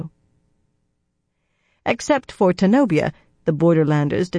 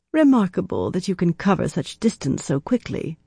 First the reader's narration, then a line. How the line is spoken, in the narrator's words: Atheniella murmured